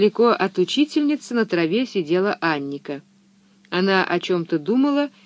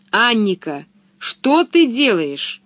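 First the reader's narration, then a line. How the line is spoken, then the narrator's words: Stern. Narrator (Russian): строго сказала ей Пеппи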